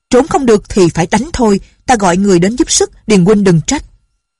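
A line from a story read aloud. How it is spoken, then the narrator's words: Shouting. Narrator (Vietnamese): quát lên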